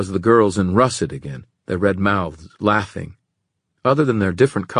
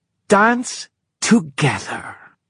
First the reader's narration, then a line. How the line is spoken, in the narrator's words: the girl said, nearly spat it as if it were a curse